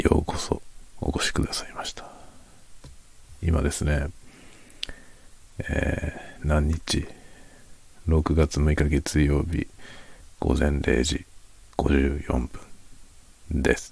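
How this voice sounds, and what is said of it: Speaking in a quiet, soft voice. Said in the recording (Japanese): “深夜の小声で雑談コーナー”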